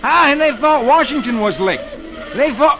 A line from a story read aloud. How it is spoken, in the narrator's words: Dick yells